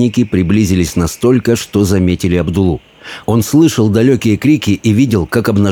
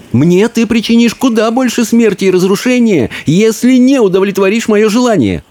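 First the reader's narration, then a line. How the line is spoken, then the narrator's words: Exclaimed. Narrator (Russian): воскликнул Абдулла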